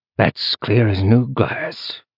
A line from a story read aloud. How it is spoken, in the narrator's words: said the man leaving the memory, and his casual drawl